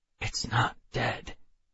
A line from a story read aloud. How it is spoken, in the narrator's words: I whispered to her